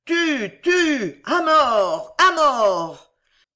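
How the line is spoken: Huge thunderous crowd roar. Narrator (French): Un immense rugissement de la multitude roula la clameur mortelle comme un tonnerre

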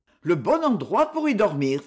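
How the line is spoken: Exclamation. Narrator (French): s'écria Lampron

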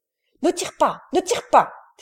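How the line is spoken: Shouting. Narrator (French): cria Brillant

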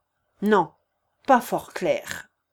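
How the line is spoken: Cold objection. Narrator (French): contesta froidement Pierre Stepanovitch

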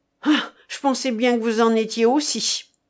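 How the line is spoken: Exclaimed. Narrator (French): s'écria Pallas

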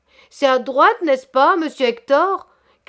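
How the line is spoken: Wailing, pitiful cry. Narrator (French): criait la voix lamentable de monsieur Chabre

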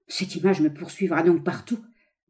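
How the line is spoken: Stammered. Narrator (French): balbutia-t-il

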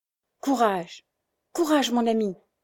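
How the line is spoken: Straining cry, young woman. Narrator (French): s'écriait la jeune femme qui faisait des efforts inouïs pour se hisser

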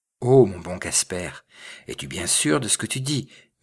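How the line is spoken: Trembling murmur. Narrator (French): murmura-t-il d'une voix tremblante

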